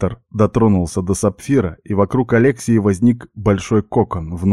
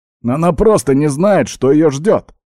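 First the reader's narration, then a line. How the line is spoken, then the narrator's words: Exclaiming. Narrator (Russian): воскликнул я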